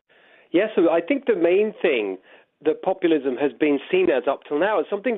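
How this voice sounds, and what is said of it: British accent, slightly faded. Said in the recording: “hype up the British bit of my accent. ... I've been here 6 years now, so I may be losing a little bit.”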